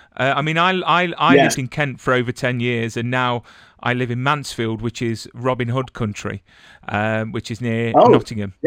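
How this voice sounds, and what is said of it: British accent. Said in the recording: “whenever I hear a British accent, I get homesick”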